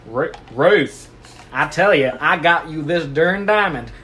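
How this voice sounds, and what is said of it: Big country accent character voice. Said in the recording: “he's from Texas, so obviously he's got a big country accent.”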